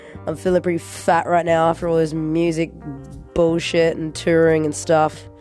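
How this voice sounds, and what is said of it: Hoarse voice from a cold. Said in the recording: “my voice is really hoarse right now. I've got a cold,”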